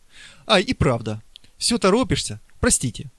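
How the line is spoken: Embarrassed exclamation. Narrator (Russian): воскликнула она, немного смутившись

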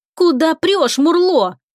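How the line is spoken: Angry yelling. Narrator (Russian): гневно заорала Лика на кого-то из драконов

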